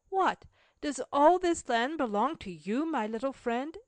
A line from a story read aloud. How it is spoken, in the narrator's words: exclaimed Mary